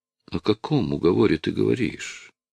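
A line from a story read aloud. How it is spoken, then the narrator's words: Tired question. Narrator (Russian): устало спросила Мария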